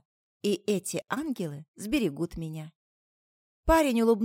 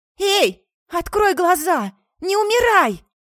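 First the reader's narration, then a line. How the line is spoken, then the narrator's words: Desperate shout. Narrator (Russian): Закричала я, тряся его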